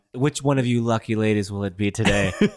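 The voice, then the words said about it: Imitates another person's voice. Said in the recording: “in my Nicolas Cage voice.”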